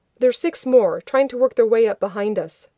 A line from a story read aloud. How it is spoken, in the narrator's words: McKay said sharply